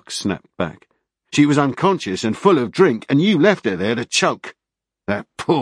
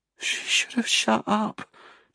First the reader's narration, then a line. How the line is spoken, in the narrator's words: Jamie said quietly